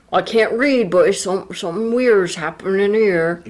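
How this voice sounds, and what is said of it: Put-on Cornish accent. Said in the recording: “Cornish accent... that was good, though.”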